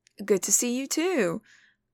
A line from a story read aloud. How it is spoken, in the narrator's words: Wei Wuxian says with a little laugh